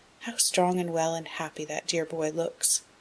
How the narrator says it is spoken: said softly, as if to herself

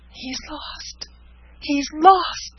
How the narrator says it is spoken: cried Frances

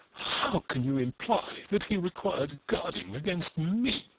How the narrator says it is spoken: cried Eustacia, passionate tears in her eyes

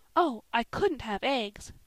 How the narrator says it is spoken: cried Polly, in amazement at the thought of such luxury

